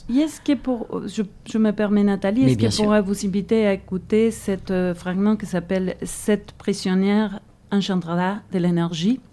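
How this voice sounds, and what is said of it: Spanish-speaking Argentine accent in French. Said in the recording (French): “mon accent hispanophone, hein, je viens d'Argentine”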